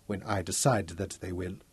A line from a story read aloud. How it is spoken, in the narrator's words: said softly